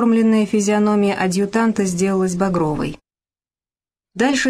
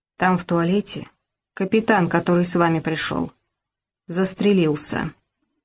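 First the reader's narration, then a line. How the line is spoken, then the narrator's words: Quiet speech. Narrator (Russian): наклонившись к уху адъютанта, проговорил тихо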